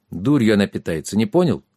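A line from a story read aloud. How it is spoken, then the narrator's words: Gloomy answer. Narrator (Russian): мрачно ответил Трикс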